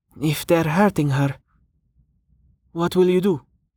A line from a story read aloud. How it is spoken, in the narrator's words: Rain sighed